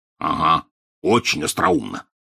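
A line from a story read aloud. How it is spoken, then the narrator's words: Grumbled. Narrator (Russian): проворчал Хагрид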